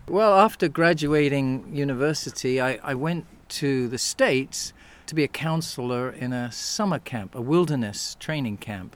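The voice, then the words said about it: Accent not sounding English. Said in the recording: “You are from England, despite the accent. ... my accent might not belong here.”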